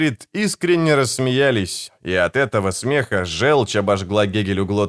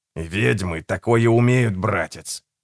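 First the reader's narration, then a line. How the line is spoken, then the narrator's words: Through gritted teeth, nauseous. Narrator (Russian): процедил сквозь зубы Гегель, пытаясь совладать с вернувшейся тошнотой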